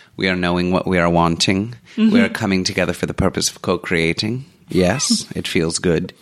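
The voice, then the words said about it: Esther Hicks impression, mid-Atlantic accent. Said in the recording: “Esther Hicks, who channels Abraham ... she has this mid-Atlantic accent”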